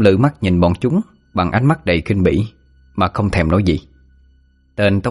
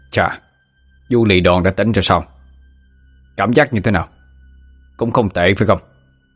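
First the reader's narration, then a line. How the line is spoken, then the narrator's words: Sneering. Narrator (Vietnamese): tên đầu trọc cười khẩy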